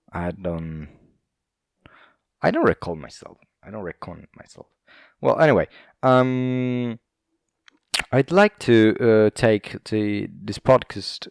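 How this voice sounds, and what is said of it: Put-on British accent. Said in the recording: “Why am I talking in a British accent now?”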